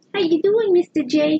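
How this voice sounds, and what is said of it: Imitates a cartoon character's voice. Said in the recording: “That's a very good impression. ... That is very good.”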